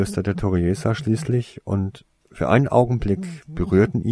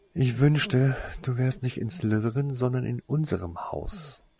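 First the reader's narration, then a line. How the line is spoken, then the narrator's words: Frustrated sigh. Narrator (German): seufzte Winona, frustriert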